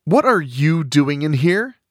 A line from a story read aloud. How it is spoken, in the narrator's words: a voice snaps